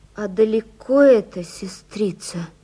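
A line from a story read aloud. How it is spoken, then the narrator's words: Wounded man's moaning question. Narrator (Russian): спросил раненый в живот и застонал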